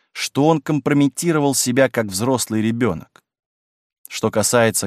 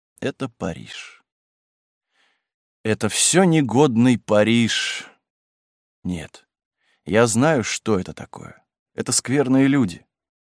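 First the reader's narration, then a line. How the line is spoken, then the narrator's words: Dull, hollow voice. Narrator (Russian): проговорила глухим голосом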